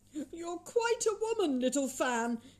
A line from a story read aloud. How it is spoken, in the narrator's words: exclaimed the boy